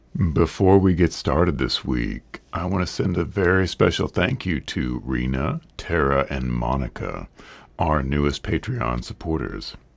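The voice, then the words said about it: Strained, not fully recovered voice. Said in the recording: “Being sick for 2 weeks ... as you can hear, my voice is still not quite where it should be ... without losing my voice entirely”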